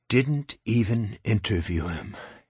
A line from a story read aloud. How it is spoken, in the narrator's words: he breathed